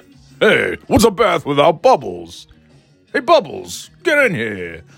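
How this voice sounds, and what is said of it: Imitates another person's voice. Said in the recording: “Rodney Dangerfield ... I can't do Rodney Dangerfield anymore. I used to be able to.”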